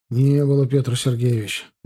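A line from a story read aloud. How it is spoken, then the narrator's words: Sighing reply. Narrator (Russian): вздохнув, ответил Гончаров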